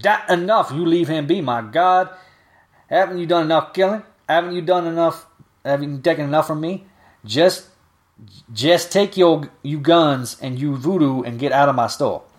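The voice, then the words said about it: Character voice read in dialect. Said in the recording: “adding this this accent for a reason ... this is actually how she's written in dialect, so I'm reading it in the dialect”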